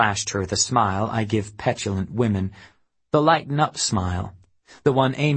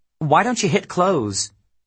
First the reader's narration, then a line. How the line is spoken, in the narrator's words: She impatiently, snapped at me